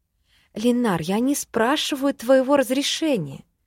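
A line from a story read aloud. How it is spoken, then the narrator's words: Gentle reply. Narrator (Russian): мягко ответила я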